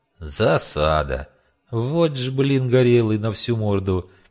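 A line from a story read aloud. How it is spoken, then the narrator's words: Sad sigh. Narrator (Russian): печально вздохнул он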